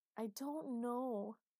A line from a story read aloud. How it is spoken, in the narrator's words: she wailed